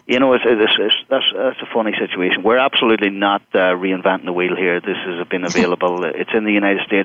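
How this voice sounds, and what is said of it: Irish accent. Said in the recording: “I speak with an Irish accent”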